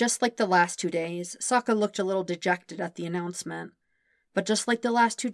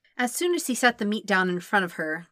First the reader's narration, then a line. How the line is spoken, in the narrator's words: Katara sighed